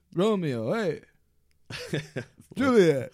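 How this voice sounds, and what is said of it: Bad Italian gangster accent. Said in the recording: “like the Goodfellas way ... Bad Italian?”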